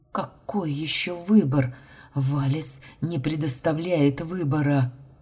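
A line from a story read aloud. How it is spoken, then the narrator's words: Hoarse tearful reply. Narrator (Russian): Хрипло ответила, утирая слезы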